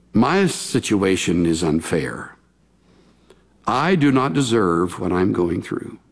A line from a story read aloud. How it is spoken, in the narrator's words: would say with a sigh